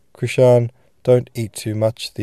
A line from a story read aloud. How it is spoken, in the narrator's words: the old man suddenly called out in dialect